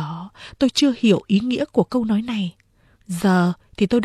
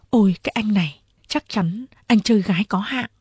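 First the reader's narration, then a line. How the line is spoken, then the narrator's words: Soft speech. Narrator (Vietnamese): Nàng khẽ bảo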